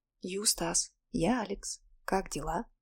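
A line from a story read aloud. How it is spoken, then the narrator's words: Whisper. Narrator (Russian): прошептал я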